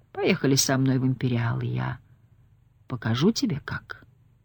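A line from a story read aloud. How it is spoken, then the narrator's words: Purring. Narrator (Russian): промурлыкал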